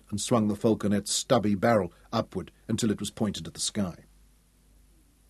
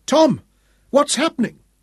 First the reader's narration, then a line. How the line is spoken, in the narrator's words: Dorian cried in wild alarm